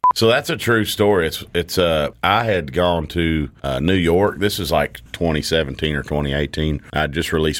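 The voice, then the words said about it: Southern US (Kentucky) accent. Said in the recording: “my southern accent ... Kentucky ... you talk funny”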